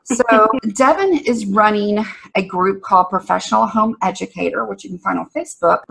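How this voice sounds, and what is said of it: Strong Southern US accent. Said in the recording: “my southern accent's really strong today ... Every time I listen to somebody from Alabama, my accent comes back”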